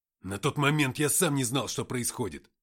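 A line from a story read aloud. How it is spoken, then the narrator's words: Barked. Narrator (Russian): рявкнул Матвей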